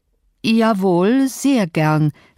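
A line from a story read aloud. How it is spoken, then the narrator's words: Hesitant. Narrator (German): sagte ich zögernd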